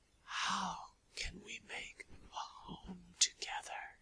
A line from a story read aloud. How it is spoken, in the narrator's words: she breathed at last